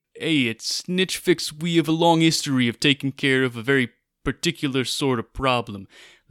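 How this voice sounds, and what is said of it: Put-on accent. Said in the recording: “they did ask me to do this in an accent”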